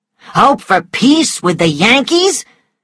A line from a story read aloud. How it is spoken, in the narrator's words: Gerald was shouting